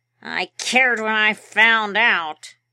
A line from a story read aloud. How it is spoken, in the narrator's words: he growled